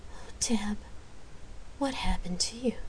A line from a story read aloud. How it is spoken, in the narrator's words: whispered